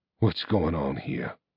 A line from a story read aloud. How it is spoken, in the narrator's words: hissed Arcturus